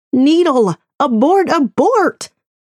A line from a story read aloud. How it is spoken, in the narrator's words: the voice inside my head, screaming